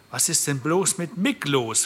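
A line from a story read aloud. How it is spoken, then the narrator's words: Plain question. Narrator (German): fragte Portia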